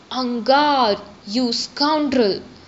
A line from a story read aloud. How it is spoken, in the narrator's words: the shadow thundered, its voice echoing in the night